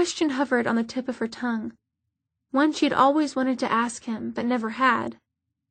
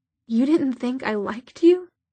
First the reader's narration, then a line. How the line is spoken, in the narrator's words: Her voice rose incredulously